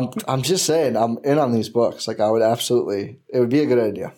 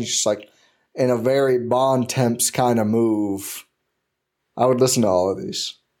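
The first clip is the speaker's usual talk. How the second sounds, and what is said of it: Exaggerated Texas accent, poorly done. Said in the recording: “extra Texas ... That's a bad accent.”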